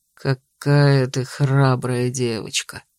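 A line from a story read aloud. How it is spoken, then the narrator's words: Purring man. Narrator (Russian): промурлыкал герцог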